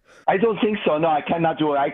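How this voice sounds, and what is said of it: Put-on German accent. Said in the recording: “Oh, that was supposed to be German. ... That was German, I think, from”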